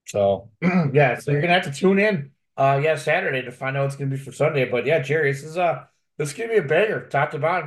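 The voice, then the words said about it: Hoarse, fading voice. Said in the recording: “I don't know why I'm losing my voice all of a sudden”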